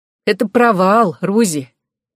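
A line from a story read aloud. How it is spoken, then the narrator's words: Snorting reply. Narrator (Russian): хмыкнув, ответила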